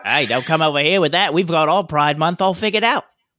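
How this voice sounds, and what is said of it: Put-on Australian accent, slightly British. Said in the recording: “That was definitely an Australian accent, not New Zealand. ... but even almost a little British, too.”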